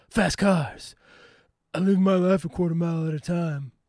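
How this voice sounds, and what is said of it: Deliberately bad celebrity impression. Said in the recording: “This is an extremely horrible Vin Diesel impersonation.”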